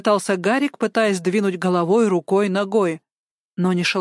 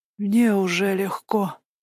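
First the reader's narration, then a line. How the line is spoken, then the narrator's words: Whisper. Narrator (Russian): прошептал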